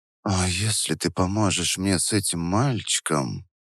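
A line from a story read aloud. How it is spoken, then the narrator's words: Continued in a whisper. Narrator (Russian): продолжала Вера шепотом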